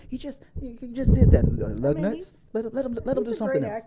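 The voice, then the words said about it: Imitates another person's voice. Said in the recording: “gonna do my Christian Harloff voice.”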